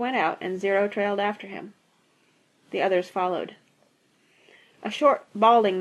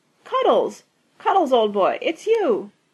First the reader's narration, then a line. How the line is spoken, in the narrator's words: he exclaimed loudly